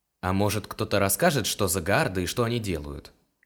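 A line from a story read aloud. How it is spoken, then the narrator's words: Angry grumbling. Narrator (Russian): сердито пробурчал Илар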